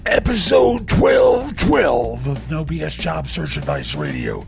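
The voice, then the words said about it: Wrestling announcer voice. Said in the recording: “doing my wrestling voice”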